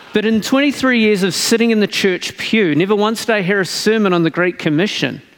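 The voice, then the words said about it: New Zealand accent. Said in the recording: “of New Zealand, or as I call it, the true promised land, because where I'm from ... as you can tell by my accent”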